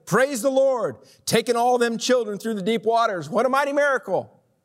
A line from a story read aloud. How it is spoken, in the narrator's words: someone shouted